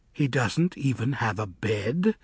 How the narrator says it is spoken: Sarima coldly asked Elfie

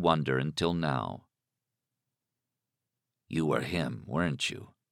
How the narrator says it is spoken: Alan said softly

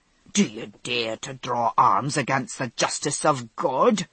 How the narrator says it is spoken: snapped the tubby little judge

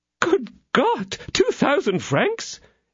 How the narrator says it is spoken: exclaimed she

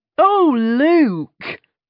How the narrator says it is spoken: cried James Royce-Royce

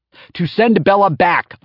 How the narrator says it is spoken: I yelled

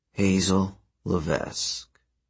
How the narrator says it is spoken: he said in a melancholy voice

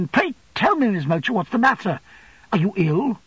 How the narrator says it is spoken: Quite alarmed at being the only recipient of this untimely visit, and the only spectator of this portentous behaviour, I exclaimed again

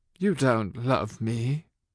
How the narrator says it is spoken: he said hoarsely

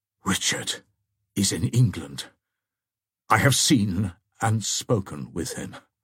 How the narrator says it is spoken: answered De Bracy, he uttered in a low and emphatic tone

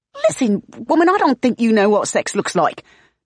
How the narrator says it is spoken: Bell splutters

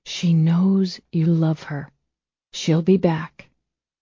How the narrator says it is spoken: With his lips against hers, he whispered

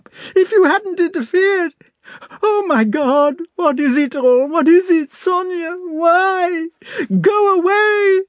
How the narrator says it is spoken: burst into sobs with the despairing vehemence with which people bewail disasters they feel they have themselves occasioned

